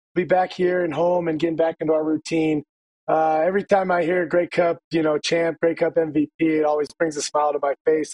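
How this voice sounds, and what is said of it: Hoarse, strained lost voice. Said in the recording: “Your voice is gone, as was Shawn Lemon's when he was on last week... my voice was gone... louder crowds. You just got to scream louder”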